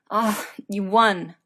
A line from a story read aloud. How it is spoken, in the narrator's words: Colin grunts